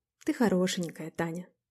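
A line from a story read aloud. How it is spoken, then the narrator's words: Said quietly. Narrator (Russian): сказал тихо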